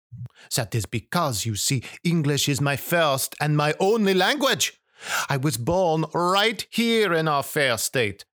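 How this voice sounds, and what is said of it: French-sounding accent. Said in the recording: “with my accent, you also think, must be from Paris or Quebec”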